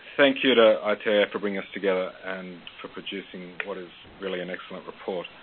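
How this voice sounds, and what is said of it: Australian accent. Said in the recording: “I am Australian. I have an Australian accent, and occasionally I am in need of a translator”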